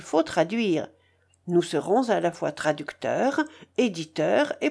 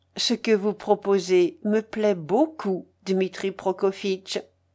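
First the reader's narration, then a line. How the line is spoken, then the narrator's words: Plain. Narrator (French): dit-elle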